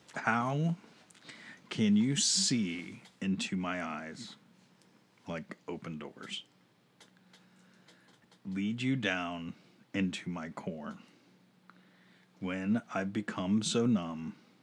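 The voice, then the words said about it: Sultry, seductive reading voice. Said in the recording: “in my sultry voice ... It's sultry.”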